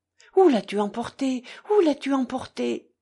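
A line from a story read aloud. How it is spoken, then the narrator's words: Heartbroken madwoman crying out. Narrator (French): s'écria la folle d'une voix déchirante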